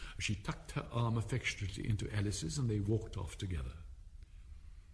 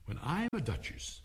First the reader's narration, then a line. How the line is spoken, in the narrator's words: she said to herself, not in a very hopeful tone, though,